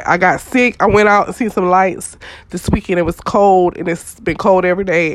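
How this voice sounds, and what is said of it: Stuffy, congested voice. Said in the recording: “I'm sick... my nose and my... I'm just trying to breathe right now... if I sound a little stuffy”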